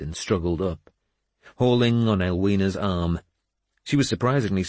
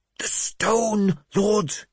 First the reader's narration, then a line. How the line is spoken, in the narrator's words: he hissed